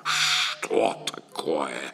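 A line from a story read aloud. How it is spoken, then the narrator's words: Menacing serpent hiss. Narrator (Russian): Страшно зашипел змей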